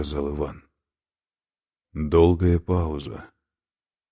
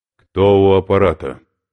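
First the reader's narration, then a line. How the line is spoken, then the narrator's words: Sharp commanding voice. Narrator (Russian): наконец спросили оттуда резким повелительным голосом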